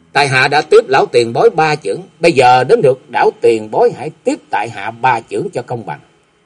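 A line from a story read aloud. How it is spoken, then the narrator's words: Loud. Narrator (Vietnamese): Kế Quan lớn tiếng nói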